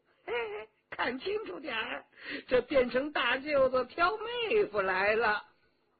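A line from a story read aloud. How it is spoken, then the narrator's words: Hearty laugh. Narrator (Chinese): 佟兆和哈哈一笑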